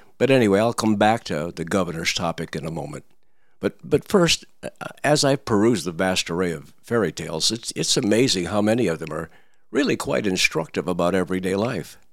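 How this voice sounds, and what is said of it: Hoarse, froggy voice. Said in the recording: “My voice is again very froggy. I'm still recovering from the COVID”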